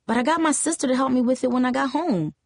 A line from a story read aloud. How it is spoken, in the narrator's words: she added quickly